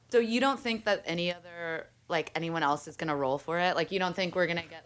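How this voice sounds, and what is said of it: Sped-up sounding fast voice. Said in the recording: “What is that voice? ... You sound sped up.”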